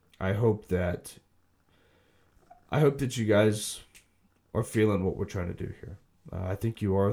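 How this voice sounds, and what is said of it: Tired, sick-sounding voice. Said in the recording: “being overly tired and sick ... Sorry about my voice.”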